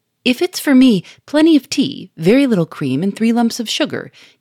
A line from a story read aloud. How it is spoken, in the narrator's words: he cried in a gay, ringing voice